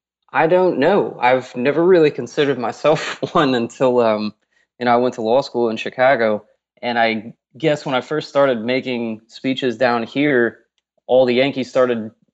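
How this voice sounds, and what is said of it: American Southern accent. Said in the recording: “it's nice to hear a Southern accent”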